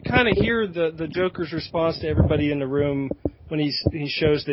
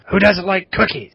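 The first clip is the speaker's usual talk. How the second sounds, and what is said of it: Bad Joker voice impression. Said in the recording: “worst Joker impression I've ever heard”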